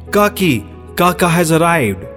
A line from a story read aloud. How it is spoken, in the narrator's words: the children warned her by shouting